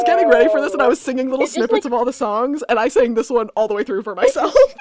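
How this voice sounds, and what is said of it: Usual voice. Nothing is said of it.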